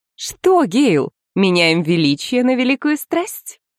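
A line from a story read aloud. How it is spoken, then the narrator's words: Laughing, theatrical. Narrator (Russian): Она рассмеялась, подражая актерам на сцене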